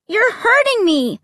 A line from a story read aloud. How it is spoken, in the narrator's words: I cried